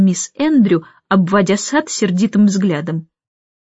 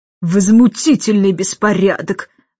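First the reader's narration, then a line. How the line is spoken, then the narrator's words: Irritated remark. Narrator (Russian): заметила она раздраженно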